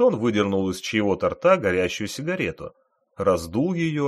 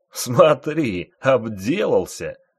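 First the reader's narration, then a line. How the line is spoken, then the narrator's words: Mocking group laughter. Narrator (Russian): захохотали служки Тритона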